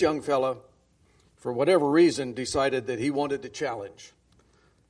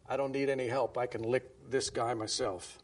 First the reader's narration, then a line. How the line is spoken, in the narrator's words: one of the big fellows named Tom in the back whispered out loud